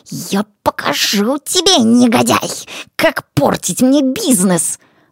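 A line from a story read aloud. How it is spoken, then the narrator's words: Hissing through gritted teeth. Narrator (Russian): Шипел он, скрежеща зубами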